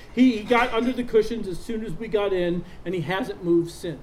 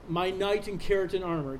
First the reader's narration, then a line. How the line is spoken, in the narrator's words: Cat said